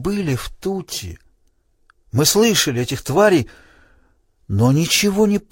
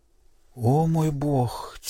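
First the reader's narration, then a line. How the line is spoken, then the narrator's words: Quiet. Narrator (Russian): тихо произнесла Селиен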